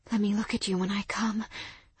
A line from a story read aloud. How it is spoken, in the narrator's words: I whispered, gasping